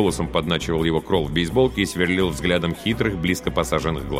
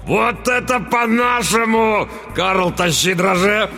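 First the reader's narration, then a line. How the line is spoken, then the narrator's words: Roar. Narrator (Russian): взревел тот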